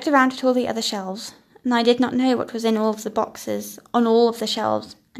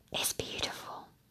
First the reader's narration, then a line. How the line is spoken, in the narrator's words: whispered